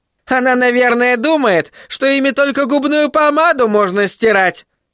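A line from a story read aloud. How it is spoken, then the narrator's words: Sudden mocking shout. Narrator (Russian): Насмешливо выкрикнула вдруг Рут Гроган, словно только что припомнила какой-то забавный случай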